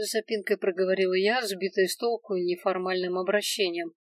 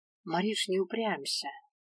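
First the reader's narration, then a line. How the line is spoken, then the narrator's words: Gentle pleading. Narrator (Russian): ласково попросил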